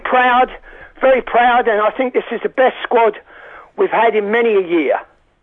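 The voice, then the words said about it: London Hoxton accent. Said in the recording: “I absolutely loved his accent ... It is a Hoxton accent”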